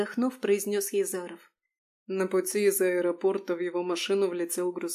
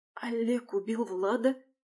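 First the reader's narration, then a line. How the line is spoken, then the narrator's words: Incredulous whisper. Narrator (Russian): С неверием шепотом произнесла Алиса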